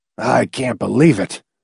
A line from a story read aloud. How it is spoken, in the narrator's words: McFife muttered